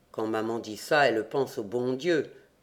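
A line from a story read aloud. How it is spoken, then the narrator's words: Murmur. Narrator (French): murmurai-je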